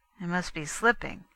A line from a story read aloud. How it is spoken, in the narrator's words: he muttered